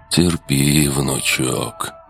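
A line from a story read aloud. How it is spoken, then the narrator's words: Sighing old mage. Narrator (Russian): вздохнул архимаг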